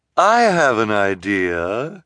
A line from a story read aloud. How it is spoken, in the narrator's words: Esme said suddenly in a false, sweet voice